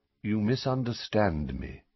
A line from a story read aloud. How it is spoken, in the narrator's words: said Dumbledore, still in the same calm tone